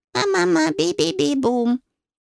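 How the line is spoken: Baby babbling. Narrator (Russian): Моя лапочка отреагировала на мое недовольство залепетала

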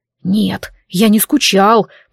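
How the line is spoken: Strangled hiss. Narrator (Russian): прошипел Дарк, пытаясь сорвать с шею удавку телекинетического мага

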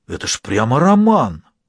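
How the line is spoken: Delighted exclamation. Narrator (Russian): воскликнул восхищенный студент

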